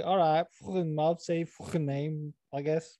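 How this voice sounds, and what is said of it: Poor put-on Scouse accent. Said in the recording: “That was a terrible Scouse dialect.”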